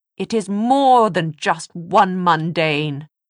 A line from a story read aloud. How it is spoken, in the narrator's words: Charlotte cried